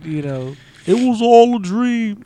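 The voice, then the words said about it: Imitates another person's voice. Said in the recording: “my Biggie Smalls impression”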